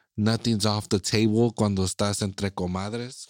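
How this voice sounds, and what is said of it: Exaggerated put-on Mexican accent. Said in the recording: “I went into a racist ass Mexican accent.”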